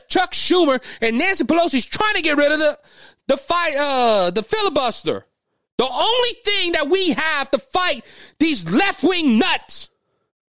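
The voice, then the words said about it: Raised, loud angry voice. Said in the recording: “I'm raising my voice.”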